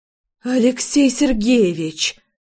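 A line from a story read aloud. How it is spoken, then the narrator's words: Whistling exhale. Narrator (Russian): Со свистом выдохнула я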